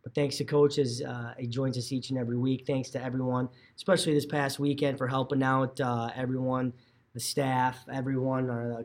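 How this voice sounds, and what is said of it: Slightly hoarse, fading voice. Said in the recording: “kind of losing my voice a bit”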